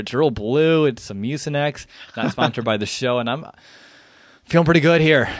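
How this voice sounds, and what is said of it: Voice affected by a cold. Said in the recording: “I don't know if you can tell, but I have a cold/flu”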